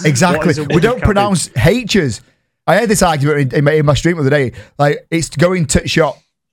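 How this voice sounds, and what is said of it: Yorkshire English accent. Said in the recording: “my voice is so soothing. I'm from Yorkshire.”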